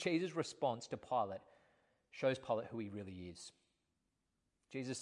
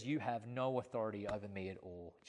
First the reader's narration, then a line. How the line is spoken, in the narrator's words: Jesus answered him